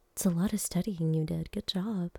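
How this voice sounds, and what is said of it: Sarcastic tone. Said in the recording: “I'm not being sarcastic. ... Okay, maybe I am a little bit.”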